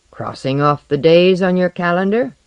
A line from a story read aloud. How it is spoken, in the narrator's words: he jeered